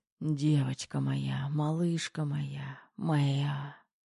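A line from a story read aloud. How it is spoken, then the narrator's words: Passionate whisper. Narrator (Russian): Шептал он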